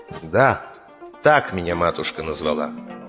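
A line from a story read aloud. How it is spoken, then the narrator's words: Calm reply. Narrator (Russian): Ондар спокойно ему отвечает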